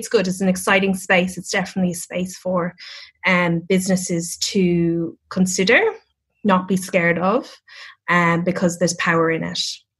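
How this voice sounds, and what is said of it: Irish accent, calm rhythmic tone. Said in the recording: “I'm Irish... can't get rid of the accent... I love the Irish accent... there's like some sort of pentameter to Irish... like you know the tone... this beautiful, like calm, like pentameter to your voice”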